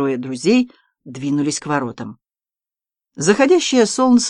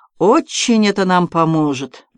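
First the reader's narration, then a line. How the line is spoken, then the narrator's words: Grumbling. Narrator (Russian): проворчал артиллерист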